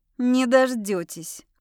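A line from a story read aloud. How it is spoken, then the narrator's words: Scoffing. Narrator (Russian): хмыкнула я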